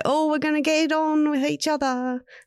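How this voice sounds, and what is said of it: Deliberately bad put-on accent. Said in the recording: “That's a really bad accent”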